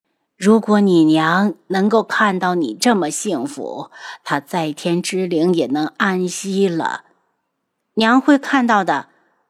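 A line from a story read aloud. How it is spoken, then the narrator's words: Old woman sighing wistfully. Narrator (Chinese): 老夫人看着他，仿佛又看到了他的吸血，感叹道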